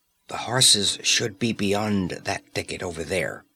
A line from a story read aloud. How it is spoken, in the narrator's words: whispered Conan, and his voice might have been a breeze moving through the branches